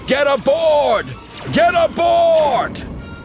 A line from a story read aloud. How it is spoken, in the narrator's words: Cham shouting